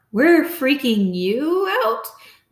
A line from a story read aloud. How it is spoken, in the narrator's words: Mom's hysterical laugh broke out again